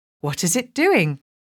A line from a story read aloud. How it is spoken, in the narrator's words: asked Colin nervously